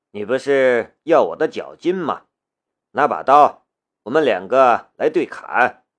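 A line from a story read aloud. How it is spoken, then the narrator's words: Cold voice. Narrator (Chinese): 夏雷……冷冷的道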